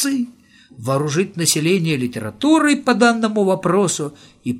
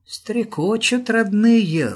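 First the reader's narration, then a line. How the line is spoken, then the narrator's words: Tender singsong. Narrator (Russian): ласково пропела Степанида Ефимовна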